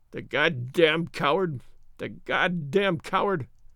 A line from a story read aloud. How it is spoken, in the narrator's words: whimpered